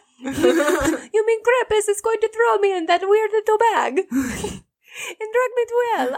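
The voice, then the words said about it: Failed German accent, sounds Italian. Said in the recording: “A German accent. I sound Italian every time. I can't do it.”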